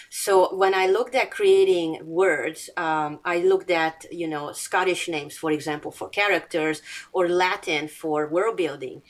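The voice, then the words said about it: Non-native English accent. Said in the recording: “It's not my first language, as you can tell by my accent.”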